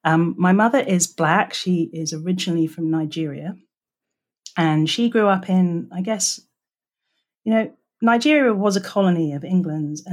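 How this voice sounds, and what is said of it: English accent. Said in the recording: “as you can probably hear from my voice, I am English.”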